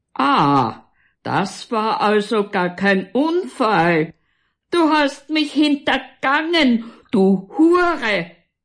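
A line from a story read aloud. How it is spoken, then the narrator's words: Keeps roaring. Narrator (German): brüllt weiter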